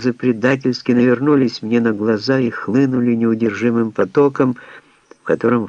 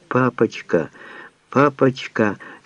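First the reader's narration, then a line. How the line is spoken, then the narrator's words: Child's tender babbling. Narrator (Russian): ребенок лепеча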